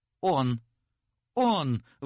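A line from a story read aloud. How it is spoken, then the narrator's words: Young woman's sudden exclamation. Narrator (Russian): вдруг воскликнула молодая женщина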